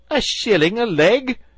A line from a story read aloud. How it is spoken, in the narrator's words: cried Toad